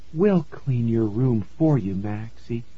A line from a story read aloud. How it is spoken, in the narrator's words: she said softly